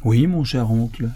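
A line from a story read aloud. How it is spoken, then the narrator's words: Plain. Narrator (French): répondit Michel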